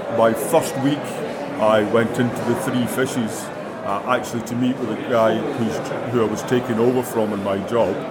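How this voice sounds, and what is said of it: Non-local regional accent. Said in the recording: “you can tell by my accent I'm not native to here”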